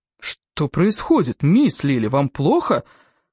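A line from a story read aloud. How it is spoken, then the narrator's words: Exclamation. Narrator (Russian): воскликнул он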